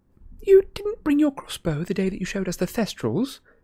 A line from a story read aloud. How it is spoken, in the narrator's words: said timidly